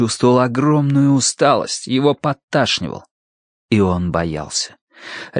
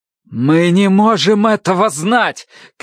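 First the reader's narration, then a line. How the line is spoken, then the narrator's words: Shout. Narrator (Russian): крикнул Тай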